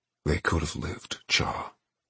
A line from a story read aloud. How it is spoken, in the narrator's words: he said through clenched teeth